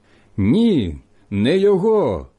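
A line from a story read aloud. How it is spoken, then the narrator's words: Shouting again. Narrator (Ukrainian): знову закричали ті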